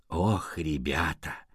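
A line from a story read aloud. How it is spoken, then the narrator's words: Sighing. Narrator (Russian): Леопольд вздохнул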